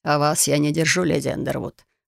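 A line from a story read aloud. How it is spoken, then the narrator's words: Snorting man. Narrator (Russian): хмыкнул мужчина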